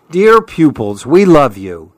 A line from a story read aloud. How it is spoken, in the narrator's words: the animals exclaim